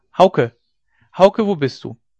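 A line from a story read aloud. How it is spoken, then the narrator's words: Bright call. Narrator (German): rief sie, auf den hellen Ruf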